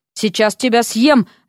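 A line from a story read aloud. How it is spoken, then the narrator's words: Barked. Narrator (Russian): рявкнула на него Вася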